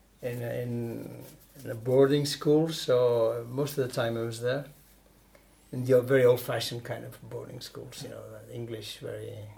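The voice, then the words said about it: Near-perfect English accent. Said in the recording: “Perfect accent.”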